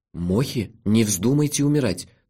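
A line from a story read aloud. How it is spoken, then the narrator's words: Trembling voice. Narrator (Russian): дрожащим голосом сказал я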